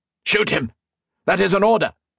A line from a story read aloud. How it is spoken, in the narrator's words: Modo barked